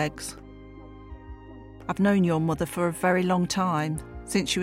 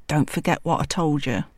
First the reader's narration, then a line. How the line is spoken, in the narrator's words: Mum whispered